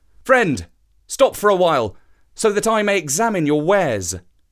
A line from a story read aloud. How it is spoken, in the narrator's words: he called out to the trader